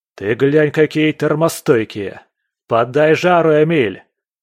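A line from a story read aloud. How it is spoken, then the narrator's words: Shout. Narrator (Russian): крикнул Андрей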